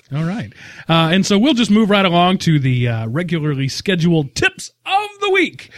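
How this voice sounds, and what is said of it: Big announcer-style radio voice. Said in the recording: “Big radio voice.”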